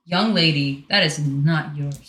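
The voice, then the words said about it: Stern scolding mom voice. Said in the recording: “You guys heard my mom voice.”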